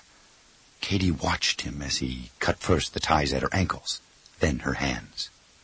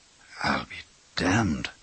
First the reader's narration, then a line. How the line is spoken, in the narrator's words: Rob muttered